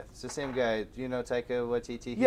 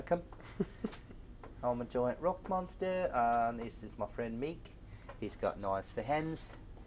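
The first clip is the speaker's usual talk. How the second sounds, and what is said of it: Korg impression, New Zealand accent. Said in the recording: “That's a good Korg. ... That's all a good Korg. ... that's Taika Waititi doing the voice there ... he's just got a funny New Zealand, I think, accent”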